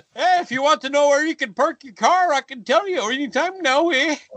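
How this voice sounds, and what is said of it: Minnesotan attempting a Boston accent. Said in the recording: “That's like a Minnesota guy trying to do a Boston accent.”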